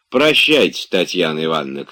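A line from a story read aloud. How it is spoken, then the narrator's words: Coachman calling after. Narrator (Russian): крикнул еще вслед кучер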